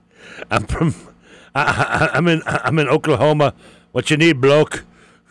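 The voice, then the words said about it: Put-on cowboy accent. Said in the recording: “Should I try to change my accent... That's my cowboy. Yeah, cowboy.”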